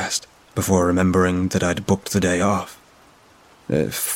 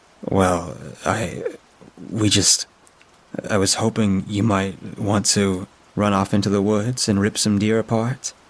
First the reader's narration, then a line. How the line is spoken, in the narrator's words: I asked